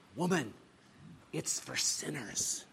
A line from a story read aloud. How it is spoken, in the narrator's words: he said to her in a low voice